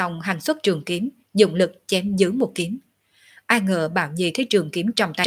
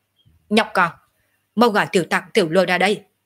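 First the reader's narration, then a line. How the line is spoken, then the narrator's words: Harsh shout. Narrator (Vietnamese): Hắn quát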